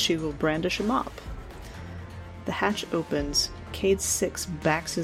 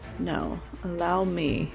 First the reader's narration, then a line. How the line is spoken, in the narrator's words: Petra will say smoothly